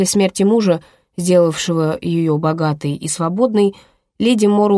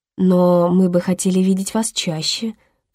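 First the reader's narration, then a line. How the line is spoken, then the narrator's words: Purred. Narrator (Russian): промурлыкала леди Морроу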